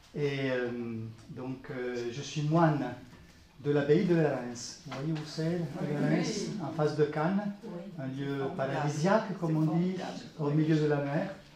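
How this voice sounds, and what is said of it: Italian accent speaking French. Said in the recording (French): “L'accent aussi, j'ai un accent italien.”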